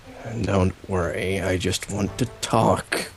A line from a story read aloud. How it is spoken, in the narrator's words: says through gritted teeth